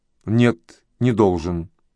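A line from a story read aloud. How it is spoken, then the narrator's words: Calm reply. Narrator (Russian): отозвался он спокойно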